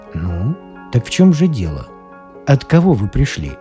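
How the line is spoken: Deep resonant encouraging voice. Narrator (Russian): Подбодрил он меня, наконец, своим глубоким звучным голосом

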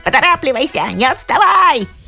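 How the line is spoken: Monkey's shout. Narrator (Russian): обезьяна крикнула

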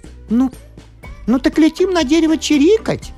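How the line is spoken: Cheerful little sparrow. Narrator (Russian): Весело подхватил небывалый воробушек

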